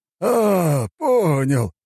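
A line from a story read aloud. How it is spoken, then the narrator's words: Old man chuckling. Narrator (Russian): хохотнул старик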